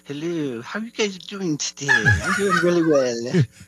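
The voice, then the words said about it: Put-on mom-like voice. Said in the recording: “Is that your new friend's accent? ... He's doing a mum impression.”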